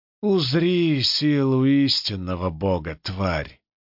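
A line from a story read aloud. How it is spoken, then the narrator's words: Lazy, mocking. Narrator (Russian): лениво усмехнулся противник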